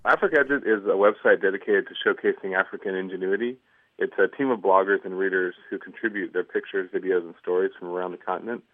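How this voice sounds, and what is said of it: American accent. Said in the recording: “Don't let his American accent fool you.”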